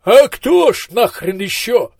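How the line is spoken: Desperate voice. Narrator (Russian): отчаянным голосом откликнулся Маздам

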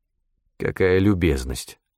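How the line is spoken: Dry cough. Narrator (Russian): сухо кашлянул я

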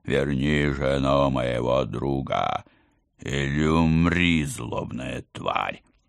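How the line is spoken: Roaring deep bass shout. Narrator (Russian): рычал и орал басом на весь лес

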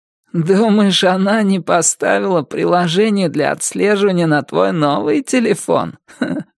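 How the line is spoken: Hoarse chuckle. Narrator (Russian): Лиза сдала хриплый смешок

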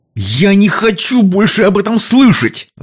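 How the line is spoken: Yelled. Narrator (Russian): заорал Билли

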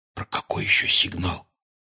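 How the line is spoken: Quiet question. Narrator (Russian): тихо спросил Гарри

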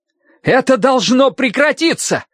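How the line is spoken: Desperate shout. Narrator (Russian): с отчаянием в голосе крикнул он

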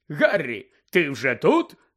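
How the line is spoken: Joyful exclamation. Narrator (Ukrainian): радісно вигукнув Бегмен

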